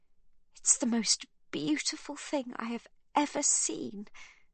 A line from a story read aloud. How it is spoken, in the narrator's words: says Magda, choking back her sobs